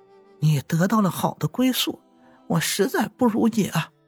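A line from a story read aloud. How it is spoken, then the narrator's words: Crying. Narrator (Chinese): 阿喜哭着说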